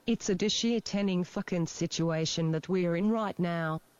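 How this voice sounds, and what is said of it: Unconvincing put-on Australian accent. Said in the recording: “Here's an Australian accent. ... that is not fucking Aussie”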